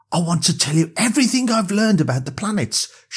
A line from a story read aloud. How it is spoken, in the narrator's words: she said excitedly